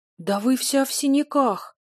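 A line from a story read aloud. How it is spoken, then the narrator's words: Upset exclamation. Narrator (Russian): расстроенно воскликнула Цила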